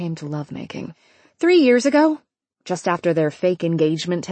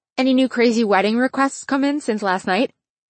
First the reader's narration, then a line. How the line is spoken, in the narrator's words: Vicky laughed